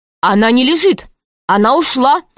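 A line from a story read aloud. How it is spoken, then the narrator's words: Plain. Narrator (Russian): сказал Аркаша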